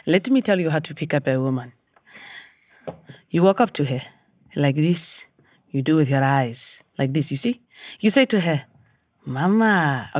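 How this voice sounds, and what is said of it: Put-on South African Xhosa accent. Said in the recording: “we worked on a Xhosa dialect, ... South African”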